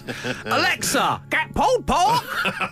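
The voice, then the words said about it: Parrot impression. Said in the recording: “good parrot impression.”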